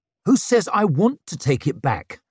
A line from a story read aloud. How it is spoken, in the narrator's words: he snarled